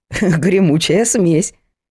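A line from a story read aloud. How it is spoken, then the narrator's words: Chuckling. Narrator (Russian): хохотнула Вера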